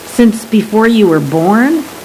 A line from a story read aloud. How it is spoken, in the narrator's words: The geologist giggled, an infectious cotton candy sound